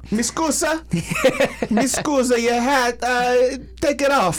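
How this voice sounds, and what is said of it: Put-on Greek or Italian accent. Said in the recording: “I don't even know what a Greek accent is. ... I just assumed. I just want Italian.”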